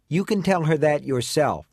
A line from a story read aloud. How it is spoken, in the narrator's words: the someone says